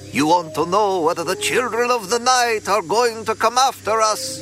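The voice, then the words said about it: Exaggerated Russian-Romanian accent. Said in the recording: “putting on my most exaggerated Russian-Romanian accent”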